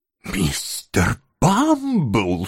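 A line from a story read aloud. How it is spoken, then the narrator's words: Frightened whispered exclamation. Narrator (Russian): шепотом воскликнула сия целомудренная леди, ибо испуг был так велик, что она лишилась голоса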